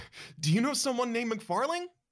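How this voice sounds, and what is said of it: Breathless, gasping voice. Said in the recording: “You gasp, almost out of breath.”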